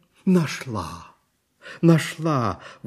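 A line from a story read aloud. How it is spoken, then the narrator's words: Sudden exclamation. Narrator (Russian): воскликнула вдруг волшебница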